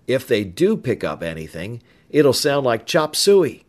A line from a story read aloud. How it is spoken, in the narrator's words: Tom ended with a chuckle